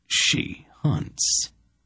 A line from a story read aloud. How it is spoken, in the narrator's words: murmured in a dead voice